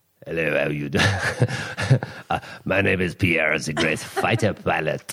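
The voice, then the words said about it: Put-on French accent. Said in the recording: “I can go to a little French.”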